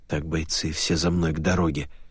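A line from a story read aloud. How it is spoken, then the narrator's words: Commanding, suddenly hoarse. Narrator (Russian): приказал Шубин сразу вдруг севшим голосом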